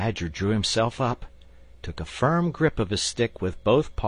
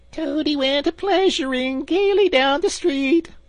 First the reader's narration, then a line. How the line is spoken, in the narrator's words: the chief weasel began in a high, squeaky voice